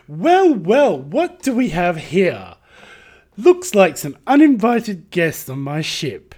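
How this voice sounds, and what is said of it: Flamboyant put-on British accent. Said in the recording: “Flamboyant space pirate captain. ... Try and do a British accent. ... Try do British flamboyancy.”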